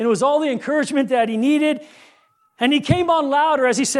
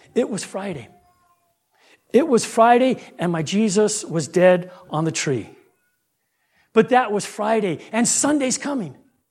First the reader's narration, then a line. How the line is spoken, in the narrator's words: The old pastor, he started his sermon real softly by saying